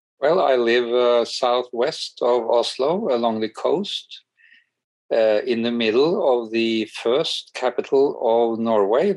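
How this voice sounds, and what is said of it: Norwegian-accented English. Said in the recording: “I've been watching some Norwegian TV shows lately, so maybe my ears are more attuned to that kind of accent.”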